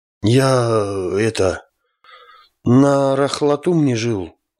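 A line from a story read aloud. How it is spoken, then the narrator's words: Terrified mumble. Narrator (Russian): промямлил Рафтулах, холодея от ужаса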